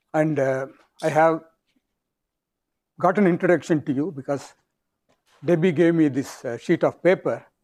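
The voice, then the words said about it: South Indian accent. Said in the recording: “I have an Indian accent, South Indian accent. Sometimes I tend to speak very fast”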